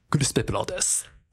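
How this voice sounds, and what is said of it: Imitates another person's voice. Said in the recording (Japanese): “クリス・ペプラーさんの声真似 ... お、似てますね。 ... 似てる似てないで言ったら似てますね。”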